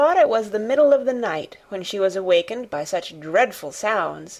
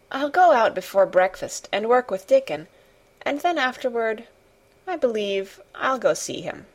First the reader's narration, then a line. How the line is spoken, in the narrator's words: she murmured to herself